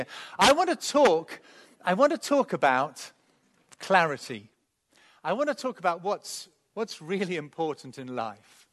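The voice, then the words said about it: English accent. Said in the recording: “this is an English accent”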